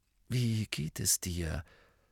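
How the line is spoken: Asked in a low voice. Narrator (German): fragte Harry ihn mit leiser Stimme

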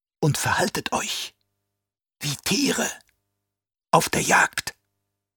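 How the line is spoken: Hissed. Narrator (German): zischte der Fremen

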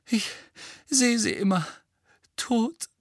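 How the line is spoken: Moaning. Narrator (German): stöhnte Mrs

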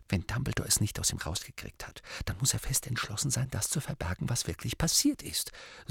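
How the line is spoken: Quiet. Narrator (German): sagte sie mit leiser Stimme

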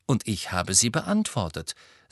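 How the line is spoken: Plain. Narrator (German): sagte Harry

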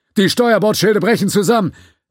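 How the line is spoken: Distant shout from the left. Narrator (German): Irgendwo zu seiner Linken rief jemand

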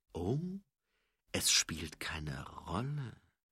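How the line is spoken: Dangerously quiet. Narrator (German): fragte Mumm gefährlich leise

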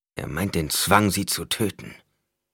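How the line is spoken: Furious growl. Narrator (German): knurrte Idaho, heiße Wut in der Stimme

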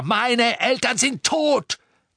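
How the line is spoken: Bellowing. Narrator (German): brüllte

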